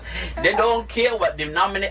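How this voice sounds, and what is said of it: Switches into local dialect. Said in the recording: “I'm talking dialect now”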